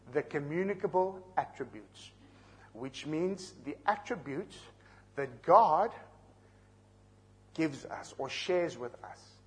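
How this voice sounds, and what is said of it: Slow speech, South African accent. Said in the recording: “I'm going to speak slowly with my South African accent”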